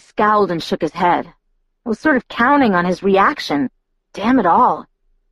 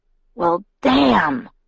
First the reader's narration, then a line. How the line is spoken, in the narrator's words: he growled